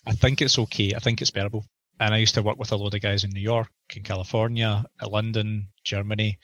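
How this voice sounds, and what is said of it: Scottish accent. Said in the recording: “I'm a Scotsman ... I don't think my accent's that strong”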